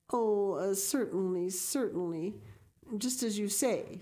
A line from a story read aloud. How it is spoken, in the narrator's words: stammered unhappy Matthew